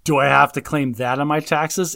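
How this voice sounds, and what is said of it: Funny put-on character voice. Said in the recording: “in this funny voice”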